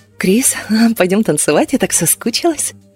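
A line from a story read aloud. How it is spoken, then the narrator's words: Passionate whisper. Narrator (Russian): она жарко зашептала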